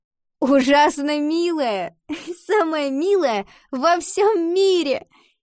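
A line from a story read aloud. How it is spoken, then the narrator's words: Laughing. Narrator (Russian): засмеялась Ива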